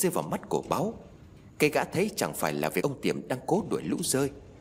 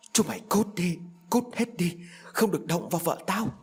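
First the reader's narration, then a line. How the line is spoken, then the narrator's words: Frenzied loud shriek. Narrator (Vietnamese): Ông Tiệm điên loạn cầm chiếc cuốc bổ vào lũ rơi và rít lớn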